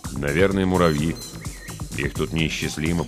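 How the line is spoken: Muttering. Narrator (Russian): пробормотал Холройд

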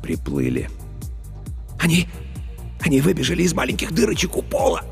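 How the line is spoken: Passionate whisper. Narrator (Russian): Страстно зашептал Старлей

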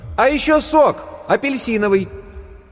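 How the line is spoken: Loud shout. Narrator (Russian): Варвара громко крикнула

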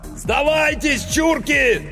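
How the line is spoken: Shouting through a megaphone. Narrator (Russian): заорал Иванов в мегафон

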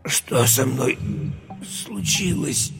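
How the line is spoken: Strained hoarse croak. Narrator (Russian): Через силу прохрипел Юра

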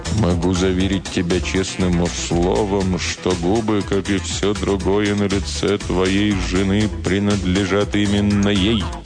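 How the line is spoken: Grave, sepulchral voice. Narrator (Russian): Из угла я говорю могильным голосом

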